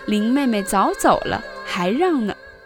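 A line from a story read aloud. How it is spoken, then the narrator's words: Group laughing. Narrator (Chinese): 众人笑说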